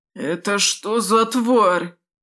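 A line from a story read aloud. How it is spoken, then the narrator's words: Hoarse rasp. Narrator (Russian): прохрипел кто-то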